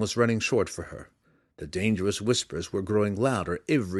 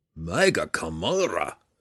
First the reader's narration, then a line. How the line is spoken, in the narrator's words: Belwar roared